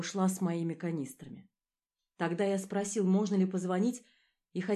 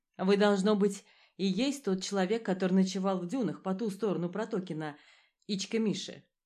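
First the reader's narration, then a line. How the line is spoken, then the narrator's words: Plain. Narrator (Russian): спросила она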